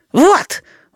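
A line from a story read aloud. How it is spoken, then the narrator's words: Breathed out. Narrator (Russian): выдохнула она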